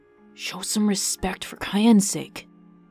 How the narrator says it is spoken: quietly growled from behind him

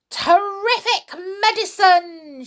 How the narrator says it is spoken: she cried

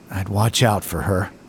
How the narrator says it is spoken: he mumbles

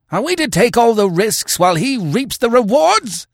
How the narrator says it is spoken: howled

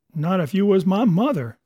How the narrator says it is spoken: he cried

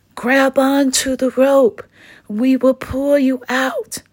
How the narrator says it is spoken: monkey called out

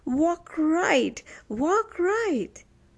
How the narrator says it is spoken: Weary cried out sobbingly

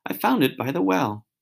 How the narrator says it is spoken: said in a rather choking kind of voice

